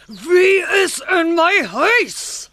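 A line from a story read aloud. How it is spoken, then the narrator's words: Loud angry roar. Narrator (Afrikaans): 'n harde brul en 'n kwaai stem wat sê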